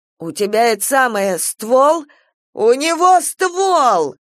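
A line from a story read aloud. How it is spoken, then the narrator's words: Shout. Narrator (Russian): он прокричал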